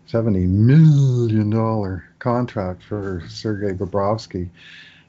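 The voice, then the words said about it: Imitates another person's voice. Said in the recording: “My best Danny DeVito imitation from Twins.”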